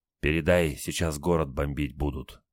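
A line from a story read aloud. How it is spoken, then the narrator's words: Ominous, intimidating whisper. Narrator (Russian): прошептал Старлей, видимо, попугать решил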